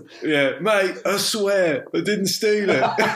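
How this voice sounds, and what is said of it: Exaggerated South London accent. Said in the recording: “the most fucking South London accent you've ever heard.”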